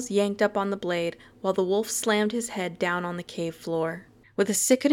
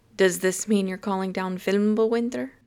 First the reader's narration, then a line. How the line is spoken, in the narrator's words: joked Stiles, but his voice wavered slightly at the end